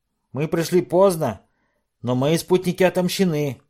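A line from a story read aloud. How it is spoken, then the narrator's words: Loud. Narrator (Russian): громко сказал Джо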